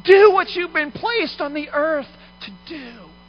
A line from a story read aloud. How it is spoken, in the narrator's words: the people are cheering him on, yelling